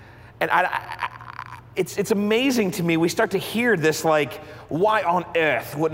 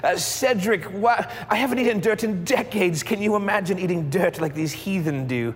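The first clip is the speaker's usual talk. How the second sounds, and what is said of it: Bad put-on English accent. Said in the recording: “that arrogance in my mind comes with an English accent ... how bad that accent actually is”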